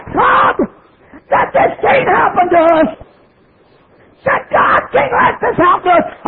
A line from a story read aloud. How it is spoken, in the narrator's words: she cried, the tears run down her cheeks, and she said